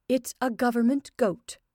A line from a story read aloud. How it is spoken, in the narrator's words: repeated in a tense voice